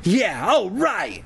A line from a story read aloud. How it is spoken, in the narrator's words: Zach exclaimed